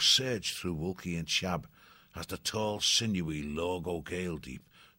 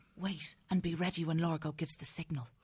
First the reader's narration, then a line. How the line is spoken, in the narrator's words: Banya whispering to them